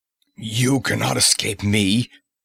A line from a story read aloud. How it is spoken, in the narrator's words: he roared